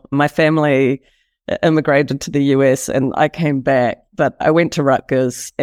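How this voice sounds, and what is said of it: Speaks with a non-American accent. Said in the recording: “despite my accent”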